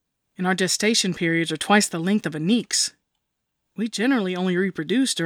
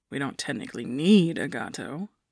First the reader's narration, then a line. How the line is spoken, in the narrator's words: Atalant muttered